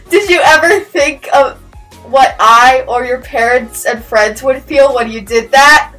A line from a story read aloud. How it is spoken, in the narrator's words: Hermione yelled at him